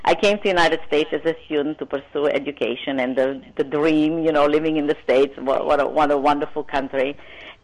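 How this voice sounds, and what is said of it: Non-native accented English. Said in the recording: “I still have an accent ... I still have that accent from various languages”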